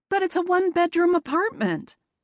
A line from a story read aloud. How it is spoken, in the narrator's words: Penelope called out